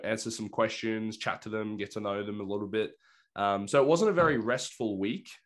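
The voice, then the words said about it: Slightly hoarse voice. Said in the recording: “As you can probably tell, my voice is a little bit hoarse. It turns out a week of yelling at teenagers will do that.”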